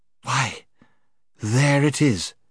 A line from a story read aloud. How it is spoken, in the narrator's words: cried the prince